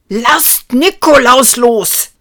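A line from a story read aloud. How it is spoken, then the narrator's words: Bellowing. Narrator (German): brüllte Ruprecht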